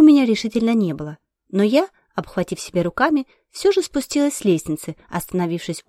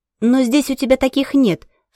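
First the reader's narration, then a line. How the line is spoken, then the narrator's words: Shouted exclamation. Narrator (Russian): выкрикнула мама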